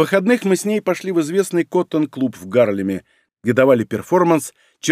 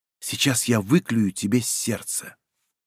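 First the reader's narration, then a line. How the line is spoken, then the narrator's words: Whisper. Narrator (Russian): наклонившись ко мне, прошептала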